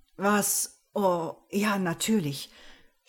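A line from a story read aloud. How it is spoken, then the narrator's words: Embarrassed stammer. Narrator (German): stotterte ich verlegen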